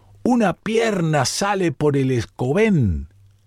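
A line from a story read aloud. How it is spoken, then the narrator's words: Fisherman exclaiming. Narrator (Spanish): De pronto un pescador que rondaba la nave con su botecillo exclamó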